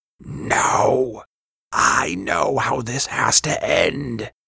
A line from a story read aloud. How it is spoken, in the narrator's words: he hissed